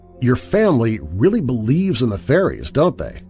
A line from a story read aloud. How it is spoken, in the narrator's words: I asked Diane